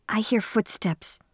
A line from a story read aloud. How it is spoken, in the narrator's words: Shirley whispered